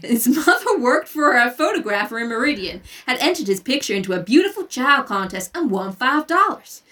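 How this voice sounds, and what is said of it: Patchy put-on reading accent. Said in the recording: “the accent gets real patchy around now”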